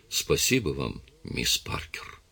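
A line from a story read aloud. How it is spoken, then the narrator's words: Quiet. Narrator (Russian): тихо произнес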